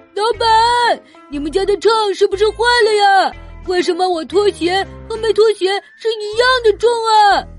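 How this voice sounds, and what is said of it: Shouting loudly. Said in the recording (Chinese): “别喊”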